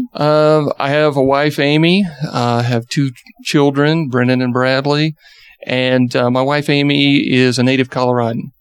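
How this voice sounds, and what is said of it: Slight Southern Georgia accent. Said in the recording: “I'm sure everyone out there hear a little bit of a Georgia accent ... A little southernness.”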